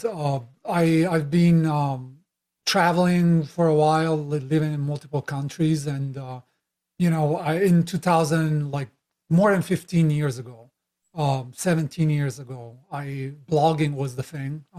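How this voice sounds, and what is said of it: Italian accent. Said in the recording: “I'm Italian originally, as you can tell by my crazy accent.”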